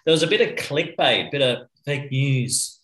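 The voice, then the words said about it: Donald Trump impression. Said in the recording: “That's my Trump impersonation. Terrible.”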